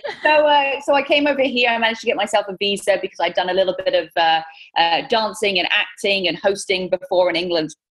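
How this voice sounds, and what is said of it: British accent. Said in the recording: “my British accent's”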